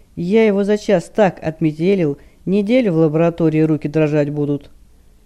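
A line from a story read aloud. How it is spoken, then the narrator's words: Cheerful, smirking. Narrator (Russian): Брюнет хмыкнул и весело заявил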